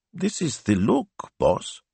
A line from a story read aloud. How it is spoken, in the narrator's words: he said in an injured tone